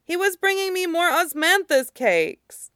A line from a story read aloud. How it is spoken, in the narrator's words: Dungar cries